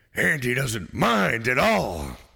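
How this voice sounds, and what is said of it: Al Pacino impression. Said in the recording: “your Al Pacino voice”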